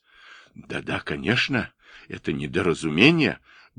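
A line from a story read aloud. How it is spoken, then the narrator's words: Muttering. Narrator (Russian): бормотал начальник порта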